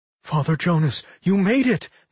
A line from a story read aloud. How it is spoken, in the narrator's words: Mary cried out